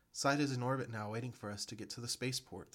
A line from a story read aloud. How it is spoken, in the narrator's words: the girl exclaimed